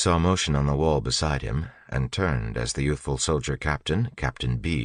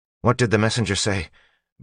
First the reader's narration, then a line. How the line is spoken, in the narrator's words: Beads asked nervously